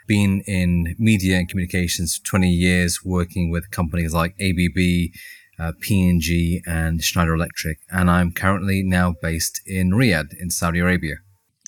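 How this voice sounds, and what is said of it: Very English accent. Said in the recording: “a very English accent.”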